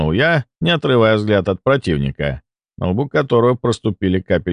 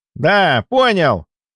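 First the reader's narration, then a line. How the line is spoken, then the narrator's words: Young man shouting. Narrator (Russian): крикнул парень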